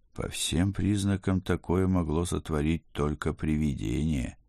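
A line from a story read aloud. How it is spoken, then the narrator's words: Glum mutter. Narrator (Russian): уныло пробормотал я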